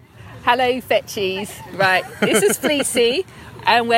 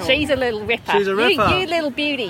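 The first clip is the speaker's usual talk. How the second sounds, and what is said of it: Put-on Australian accent. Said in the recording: “we're going to do Australian accents”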